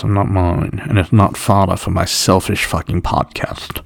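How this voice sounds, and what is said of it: Affected fake British accent. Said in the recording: “I'm not sure what part of Britain you just put yourself from ... crazy British weird ... It was a bit affected. It was an affected accent. ... fake Brit”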